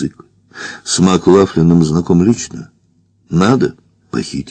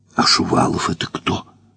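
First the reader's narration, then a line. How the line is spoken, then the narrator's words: Whisper. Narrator (Russian): прошептала Варя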